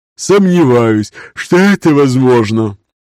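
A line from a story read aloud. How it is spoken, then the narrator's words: Tired, yawning. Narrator (Russian): зевнув, устало ответил Раевский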